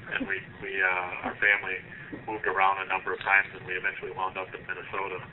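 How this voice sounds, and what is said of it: Minnesota accent. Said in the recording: “it's nice to hear the Minnesota accent ... Oh, you definitely have.”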